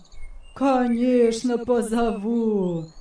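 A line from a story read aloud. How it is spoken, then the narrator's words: Laughing old man. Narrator (Russian): засмеялся старик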